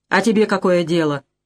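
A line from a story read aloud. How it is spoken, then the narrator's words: Rude. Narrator (Russian): грубо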